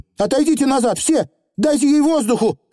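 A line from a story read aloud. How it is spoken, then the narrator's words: Shouting to a crowd. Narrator (Russian): она крикнула столпившимся наверху людям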